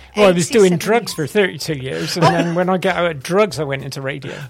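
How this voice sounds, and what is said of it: Bristolian English accent. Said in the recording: “your wonderful Bristolian accent”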